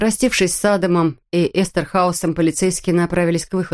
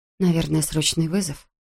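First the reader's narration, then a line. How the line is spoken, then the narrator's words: Mumble. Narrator (Russian): пробормотала Кэт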